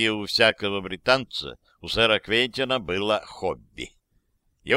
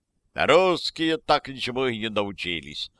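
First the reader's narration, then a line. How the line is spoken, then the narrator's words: Short laugh. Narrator (Russian): хохотнул кто-то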